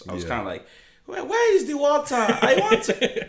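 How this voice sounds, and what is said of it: Put-on Nigerian accent. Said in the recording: “my accent was not like this ... You're laughing at my accent ... my Nigerian accent”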